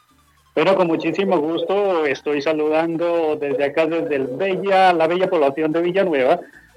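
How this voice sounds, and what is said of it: Announcer-like radio voice. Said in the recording (Spanish): “tiene voz de locutor ... Tiene voz de locutor”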